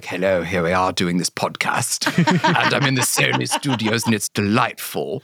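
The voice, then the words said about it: Fake British accent. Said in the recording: “faking a British accent. I feel like I do British accents way too much”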